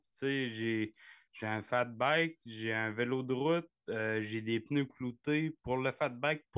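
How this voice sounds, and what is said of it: Gaspésien Quebec French accent. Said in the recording (French): “avec ton accent, là, toi, tu es un vrai Gaspésien... Oh oui, pur et dur.”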